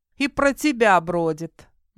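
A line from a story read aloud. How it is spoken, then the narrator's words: Mocking young woman. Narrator (Russian): насмешливо ответила девушка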